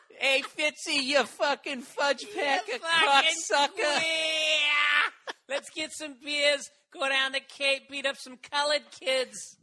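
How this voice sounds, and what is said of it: Put-on Boston accent. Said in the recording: “I do the Boston accent”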